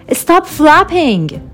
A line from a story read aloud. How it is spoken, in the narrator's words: he shouted over the cliff